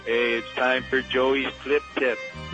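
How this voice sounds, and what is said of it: Put-on Italian accent. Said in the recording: “your Italian accent?”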